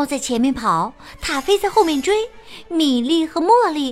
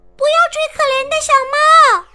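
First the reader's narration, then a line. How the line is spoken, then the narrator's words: Shouting. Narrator (Chinese): 茉莉大喊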